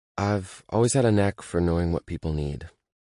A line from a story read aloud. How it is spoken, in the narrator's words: she says softly, as if she's choosing her words very carefully